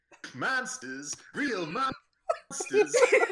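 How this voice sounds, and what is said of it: Impression of Joey from Yu-Gi-Oh!. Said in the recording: “He does the best Joey from Yu-Gi-Oh! Impression I've ever heard in my life ... He does a great Joey from Yu-Gi-Oh!”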